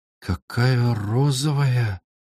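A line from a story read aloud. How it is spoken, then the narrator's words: Soft hiss. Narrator (Russian): тихонько прошипела она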